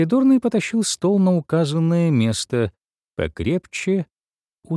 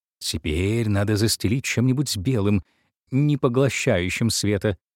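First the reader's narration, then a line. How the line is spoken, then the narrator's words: Muttering. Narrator (Russian): бормотал художник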